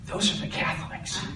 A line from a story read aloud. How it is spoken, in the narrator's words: Peter whispered